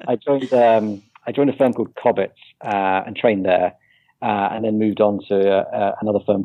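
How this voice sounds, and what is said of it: British accent. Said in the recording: “I, am based in the UK ... as you can probably tell from the accent ... we love yeah, those I accents.”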